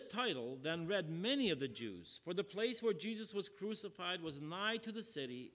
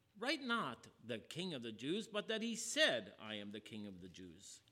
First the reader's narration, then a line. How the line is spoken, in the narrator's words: Pilate answered